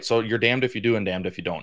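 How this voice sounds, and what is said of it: Northern American accent. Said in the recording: “I talk like a white guy. I sound like I'm from the North”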